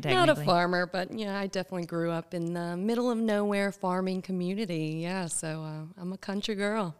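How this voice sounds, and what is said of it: Country twang accent. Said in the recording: “Sometimes a little twang comes out you.”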